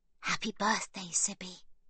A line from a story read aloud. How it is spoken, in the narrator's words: she whispers